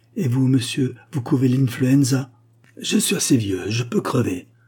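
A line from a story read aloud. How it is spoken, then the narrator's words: Exclaimed. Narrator (French): s'écria-t-il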